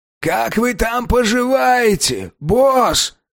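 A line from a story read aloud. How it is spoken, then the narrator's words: Shout. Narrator (Russian): крикнул Гос Полу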